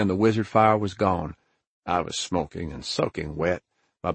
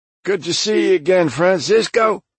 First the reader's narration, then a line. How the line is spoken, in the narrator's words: I wheezed